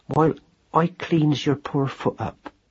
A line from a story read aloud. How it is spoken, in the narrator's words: said Madeline gently